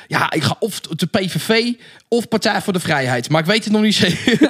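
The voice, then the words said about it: Broad Rotterdam Dutch accent. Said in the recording (Dutch): “plat Rotterdams ... Was dit niet juist Brabants? Nee, volgens mij was het Rotterdam. ... een heel plat accent”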